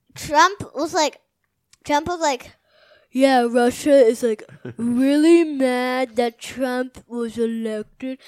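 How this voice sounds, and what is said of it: Imitates another person's voice. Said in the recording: “that's a pretty good imitation.”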